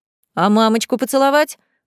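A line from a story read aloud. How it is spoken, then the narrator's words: Growl called after. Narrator (Russian): рыкнул вдогонку Реймонд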